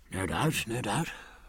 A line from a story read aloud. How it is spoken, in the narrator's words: said Jack uneasily